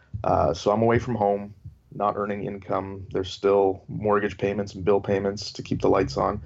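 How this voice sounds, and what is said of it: Canadian accent. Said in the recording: “I'm Canadian. The accent doesn't give it away. ... Not at all. And in hospital. Boot.”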